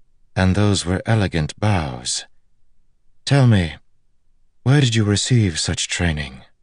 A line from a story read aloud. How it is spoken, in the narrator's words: Her voice was like music